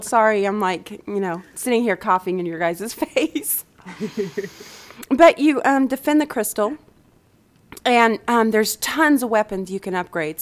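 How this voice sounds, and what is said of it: Voice of someone with a cold. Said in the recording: “I have a cold.”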